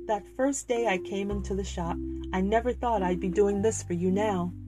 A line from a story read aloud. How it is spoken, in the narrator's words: said, with a laugh which he forced